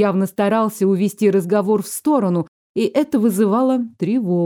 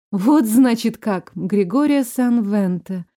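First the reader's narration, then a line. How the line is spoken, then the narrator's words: Lifeless flat voice. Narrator (Russian): повторила безжизненным голосом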